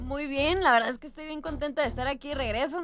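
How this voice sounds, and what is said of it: Speaks with a noticeable accent. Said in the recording (Spanish): “Con el acento”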